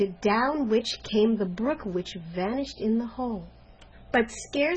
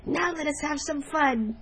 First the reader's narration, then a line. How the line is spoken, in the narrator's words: cried one